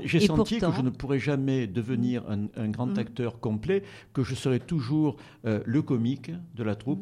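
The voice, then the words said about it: Light Provençal French accent. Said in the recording (French): “j'ai un léger accent provençal qui fait un peu rire ... j'ai voulu écrire pour qu'on n'entende pas mon accent”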